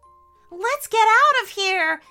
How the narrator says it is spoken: yelled Elliot while she was still skating

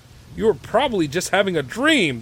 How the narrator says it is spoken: the innkeeper exclaimed

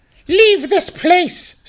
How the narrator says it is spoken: screeched the giant midget, its voice so like a normal-sized man

